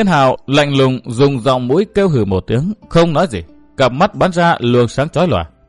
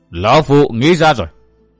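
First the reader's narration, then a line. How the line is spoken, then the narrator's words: Loud old man. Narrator (Vietnamese): lão nhân áo đen lớn tiếng nói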